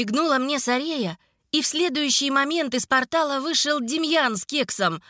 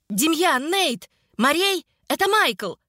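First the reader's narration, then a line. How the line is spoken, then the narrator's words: Shout while dodging. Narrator (Russian): крикнула я, уклоняясь от очередного удара магии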